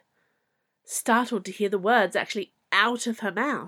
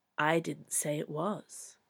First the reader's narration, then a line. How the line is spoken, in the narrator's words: the Queen replied evenly